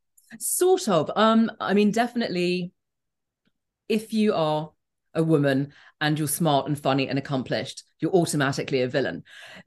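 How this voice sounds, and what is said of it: Noticeable accent. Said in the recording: “my accent”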